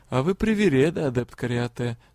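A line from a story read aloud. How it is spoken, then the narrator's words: Sad, gentle coaxing. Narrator (Russian): грустно произнес лорд-директор, все так же мягко уговаривая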